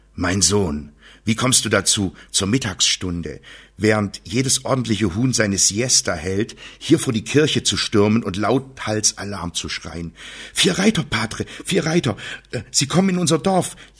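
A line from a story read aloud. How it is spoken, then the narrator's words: Breathless gasping. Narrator (German): japste Sancho, noch ganz außer Atem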